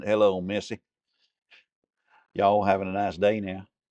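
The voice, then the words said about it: Put-on Southern drawl accent. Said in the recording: “with a southern droll accent. ... Southern droll. So Virginia”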